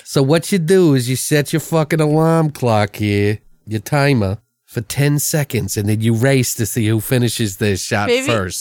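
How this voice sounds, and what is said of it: New York accent. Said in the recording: “What's with the New York accent? Where did that come from? ... They do not talk like that from Baltimore.”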